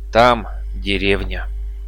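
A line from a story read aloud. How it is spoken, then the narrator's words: Calm. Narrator (Russian): Манаури спокойно произнес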